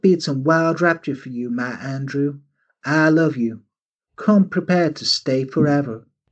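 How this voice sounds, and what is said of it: Put-on Deep South Southern Belle accent. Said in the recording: “I know that Indiana isn't in the Deep South, but that's the only accent I can do ... So she's a Southern Belle for this.”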